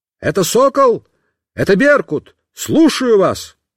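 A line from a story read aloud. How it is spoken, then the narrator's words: Shouted. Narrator (Russian): я закричал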